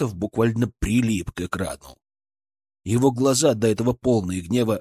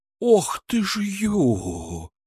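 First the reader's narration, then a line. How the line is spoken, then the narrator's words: Breathed out. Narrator (Russian): выдохнул он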